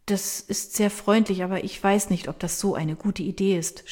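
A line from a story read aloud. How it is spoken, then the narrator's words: Stammering. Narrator (German): stammelt sie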